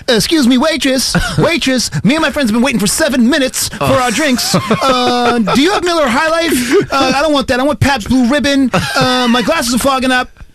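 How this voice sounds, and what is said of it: Mocking obnoxious snob character voice. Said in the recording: “I can do the voice, too. ... Do the D bag voice.”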